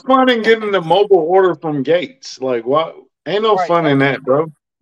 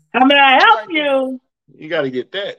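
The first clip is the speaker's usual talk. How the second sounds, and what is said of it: Yelled Gates counter-worker impression. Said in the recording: “You got to get yelled at ... You got to work on your Gates impression, man. How may I help you? Like that.”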